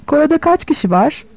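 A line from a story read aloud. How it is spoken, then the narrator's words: Laughing. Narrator (Turkish): Gwilym gülerek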